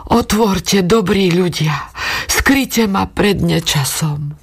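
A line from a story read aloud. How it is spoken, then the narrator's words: Weak pleading voice. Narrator (Slovak): prosila slabnúcim hlasom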